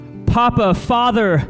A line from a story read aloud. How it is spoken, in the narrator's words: Jesus cried